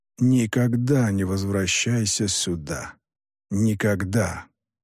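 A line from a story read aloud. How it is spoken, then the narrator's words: Quiet speech. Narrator (Russian): негромко заговорил Юкай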